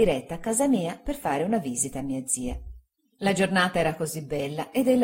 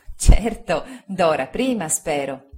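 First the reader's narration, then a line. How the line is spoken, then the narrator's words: Laughing. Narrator (Italian): disse Agnese ridendo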